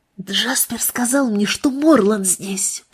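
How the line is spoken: Impulsive whisper. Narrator (Russian): прошептала Кассандра порывисто

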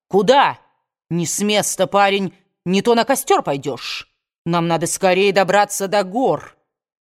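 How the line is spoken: Sergeant shouting. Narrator (Russian): Промокший до нитки сержант закричал

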